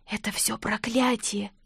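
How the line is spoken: Whisper. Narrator (Russian): прошептала я

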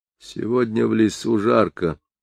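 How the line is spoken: Quiet speech. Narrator (Russian): тихо сказал Муха

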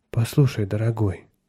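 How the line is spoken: Tenderly. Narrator (Russian): нежно сказала она

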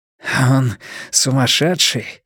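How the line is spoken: Hoarse. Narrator (Russian): хрипло сказал Блор

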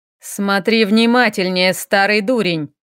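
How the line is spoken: Grumbled. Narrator (Russian): ворчал нынешний владыка эльфов

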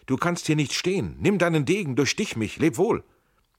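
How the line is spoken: Called out. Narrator (German): rief Schell

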